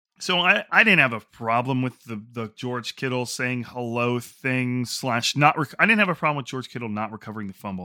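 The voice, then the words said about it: Congested, stuffy-nosed voice. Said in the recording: “like my voice is, I got like a stuffy nose just from talking”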